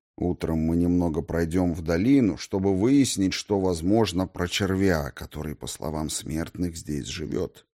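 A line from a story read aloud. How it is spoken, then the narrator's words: Quiet. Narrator (Russian): тихо сказал он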